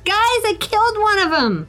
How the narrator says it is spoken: I yell over

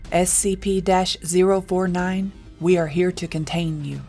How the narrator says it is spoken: Mason said, his voice steady despite the fear that gripped his heart

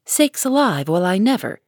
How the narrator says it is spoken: Hannah came in to exclaim

